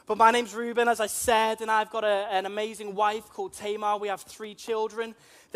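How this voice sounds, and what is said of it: Liverpool Scouse accent. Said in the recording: “I'm from Liverpool. You may be able to tell that from my strange accents. ... A lot of people call me a plastic Scouser”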